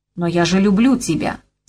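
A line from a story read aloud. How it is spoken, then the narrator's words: Sharp. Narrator (Russian): сказал он резко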